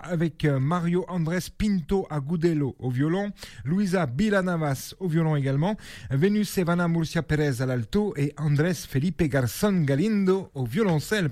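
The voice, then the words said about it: Poor put-on Spanish accent. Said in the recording (French): “Pardonnez mon accent espagnol, hein, je fais de mon mieux ... un bien meilleur accent espagnol de la part de ces artistes”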